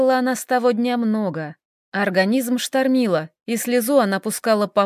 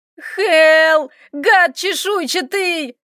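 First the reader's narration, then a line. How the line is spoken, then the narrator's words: Shouted. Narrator (Russian): кричала Доменика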